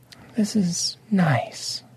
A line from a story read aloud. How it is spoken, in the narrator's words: Lady Obsidian said softly